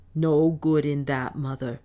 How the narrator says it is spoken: said Otter

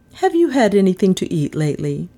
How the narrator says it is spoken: she asked in a kindly voice

